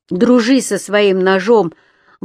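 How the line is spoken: Shout. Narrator (Russian): она ему крикнула

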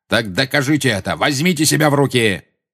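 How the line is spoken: Barked. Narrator (Russian): рявкнул Снег

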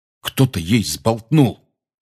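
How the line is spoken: Angry. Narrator (Russian): сердито сказал Рон

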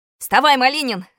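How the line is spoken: Shouting. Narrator (Russian): закричал я на Костю

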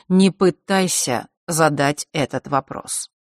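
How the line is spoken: Cold statement. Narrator (Russian): холодно произнес он

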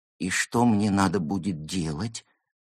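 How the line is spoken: Trembling question. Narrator (Russian): поинтересовался пингвин дрожащим голосом

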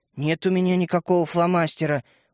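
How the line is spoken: Sullen grunt. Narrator (Russian): угрюмо буркнул Светлик

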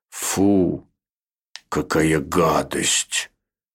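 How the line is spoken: Rude interruption. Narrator (Russian): грубо оборвал его человечек

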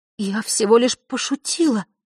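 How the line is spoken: Soothing whisper, young girl. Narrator (Russian): прошептала девочка, стараясь, чтобы голос прозвучал успокаивающе

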